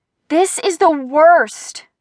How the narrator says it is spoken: cried ... in frustration

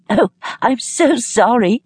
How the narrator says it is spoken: she cried back

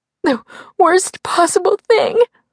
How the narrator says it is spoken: sobbed

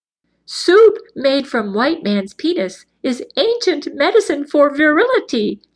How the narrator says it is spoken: giggled

